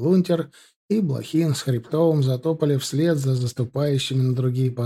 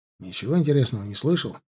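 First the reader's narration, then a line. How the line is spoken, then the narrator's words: Quiet question. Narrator (Russian): спросил он негромко у Ленки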